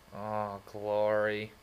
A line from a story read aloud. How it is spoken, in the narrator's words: I said with a groan